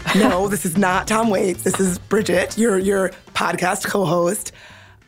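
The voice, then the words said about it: Hoarse, gravelly voice. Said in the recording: “You may be able to tell I sound a little bit like Tom Waits. ... laryngitis. So my voice sounds, I would say, dramatically different than it usually does.”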